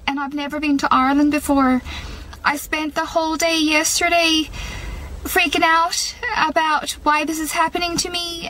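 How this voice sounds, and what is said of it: Irish accent. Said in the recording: “she woke up with an Irish accent”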